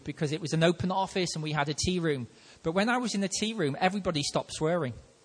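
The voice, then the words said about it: Liverpool accent. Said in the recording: “I'm from Liverpool ... my accent starts coming out now”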